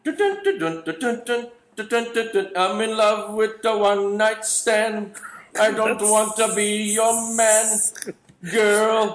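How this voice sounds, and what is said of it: Badly done put-on singing accent. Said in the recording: “A terrible accent, but it's ... pretty good.”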